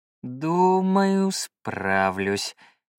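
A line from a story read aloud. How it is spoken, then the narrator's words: Drawling. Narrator (Russian): протянул я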